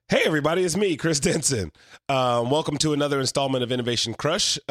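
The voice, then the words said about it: Hoarse, fading voice. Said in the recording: “I'm kind of losing my voice”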